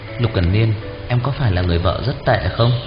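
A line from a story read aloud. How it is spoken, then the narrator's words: Quiet guilty voice. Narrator (Vietnamese): áy náy, nhỏ giọng nói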